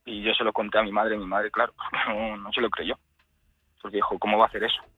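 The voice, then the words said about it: Trembling, emotional voice. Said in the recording (Spanish): “se me está poniendo la voz temblorosa otra vez”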